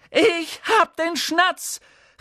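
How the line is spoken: Calling out. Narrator (German): rief er

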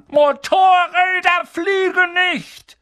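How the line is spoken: Furious red-faced shout. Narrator (German): das Gesicht wie eine riesige Scheibe rote Beete mit Schnurrbart, und schrie Harry an

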